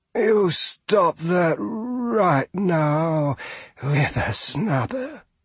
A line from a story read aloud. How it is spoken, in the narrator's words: she hissed